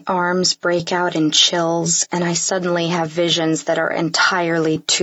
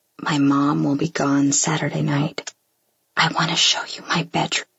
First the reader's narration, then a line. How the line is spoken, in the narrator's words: whispers in my ear